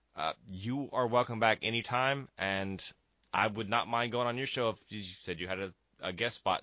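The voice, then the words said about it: Voice starting to give out. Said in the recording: “my voice is starting to go from the bronchitis”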